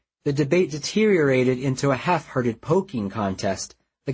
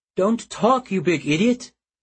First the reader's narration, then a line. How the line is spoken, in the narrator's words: Mallory sobbed